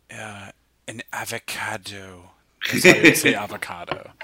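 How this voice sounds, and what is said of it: Christoph Waltz impression with deep breaths. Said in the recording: “your best Christoph Waltz impression ... It's the deep breaths”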